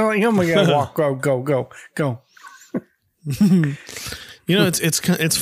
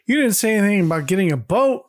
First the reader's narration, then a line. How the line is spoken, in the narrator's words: Greg laughs and says